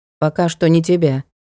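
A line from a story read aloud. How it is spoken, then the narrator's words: Calm. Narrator (Russian): спокойно указал Гансенгер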